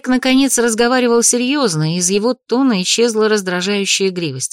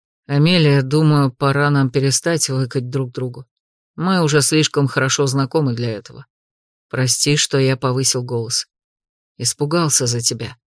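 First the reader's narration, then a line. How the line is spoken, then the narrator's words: Soft. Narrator (Russian): мягко проговорил он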